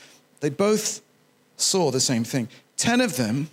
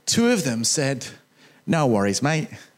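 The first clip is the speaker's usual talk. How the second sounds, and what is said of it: Put-on Australian accent. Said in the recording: “That's my Australian accent. It's good, right?”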